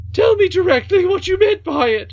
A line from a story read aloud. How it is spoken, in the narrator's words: screamed the nurse, half wild with anger at the princess and fright at the possible consequences to herself